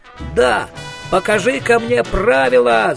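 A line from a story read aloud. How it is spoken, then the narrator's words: Furious yelling. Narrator (Russian): заорал Коэн, приплясывая от ярости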